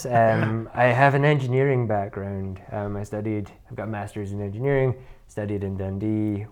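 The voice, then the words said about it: Scottish accent, sometimes mistaken for American. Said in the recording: “I'm from Inverness, despite the accent. A lot of people think that I'm from America. I've had Spanish one time. I don't think I sound like a Spanish person.”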